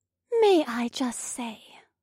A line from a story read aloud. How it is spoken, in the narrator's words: Vesta purred